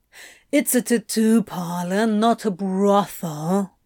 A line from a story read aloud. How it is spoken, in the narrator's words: Crowley drawled